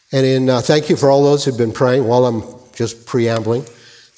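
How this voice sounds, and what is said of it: Strained voice, hard to listen to. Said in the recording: “My voice might be a little hard to listen to”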